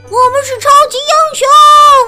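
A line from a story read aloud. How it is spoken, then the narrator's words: Group shouting together. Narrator (Chinese): 大家 一起喊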